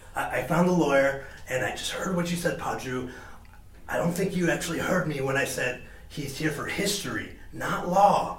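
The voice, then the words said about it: Whispering. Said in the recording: “I don't know why I'm whispering to you ... everyone can hear you. You're so obvious.”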